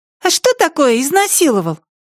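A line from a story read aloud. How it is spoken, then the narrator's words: Thin little voice. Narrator (Russian): тоненьким голоском спросила Ханна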